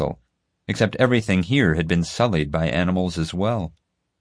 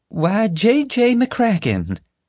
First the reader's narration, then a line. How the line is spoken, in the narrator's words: Flora cooed, trying to sound natural